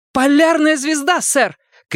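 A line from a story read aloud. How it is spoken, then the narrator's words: Shout. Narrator (Russian): крикнула Рейнольдс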